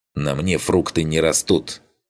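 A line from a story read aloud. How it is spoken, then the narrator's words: Snapping retort. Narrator (Russian): Хотел огрызнуться Арлинг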